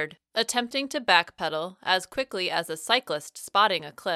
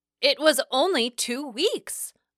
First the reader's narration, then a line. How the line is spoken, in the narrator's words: I exclaimed through clenched teeth, unable to keep my rising temper from raising my volume